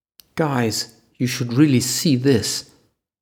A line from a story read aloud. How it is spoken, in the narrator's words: Casper called over